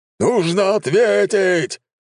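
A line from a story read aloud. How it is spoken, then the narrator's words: Roared. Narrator (Russian): взревел генерал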